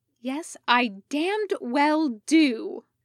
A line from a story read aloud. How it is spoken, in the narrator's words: snapped back, glaring